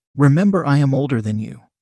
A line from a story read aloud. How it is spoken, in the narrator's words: she said